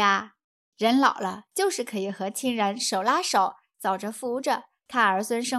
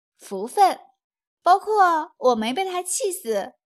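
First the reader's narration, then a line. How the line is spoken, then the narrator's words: Smiling. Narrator (Chinese): 夫人听了一笑，说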